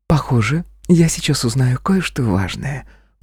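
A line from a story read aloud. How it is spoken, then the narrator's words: Whisper. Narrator (Russian): прошептала Жулианна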